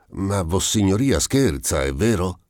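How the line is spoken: Said with a sigh. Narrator (Italian): traendo un sospiro, disse

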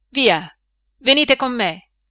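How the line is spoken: Shout. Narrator (Italian): gli grida il delegato

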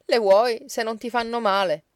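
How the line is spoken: Laughing, sharply cutting in. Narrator (Italian): Bartola rise, ma gli diede subito sulla voce

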